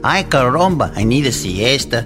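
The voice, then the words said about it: Exaggerated Mexican Spanish accent. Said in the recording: “speaking like you're from south of the border”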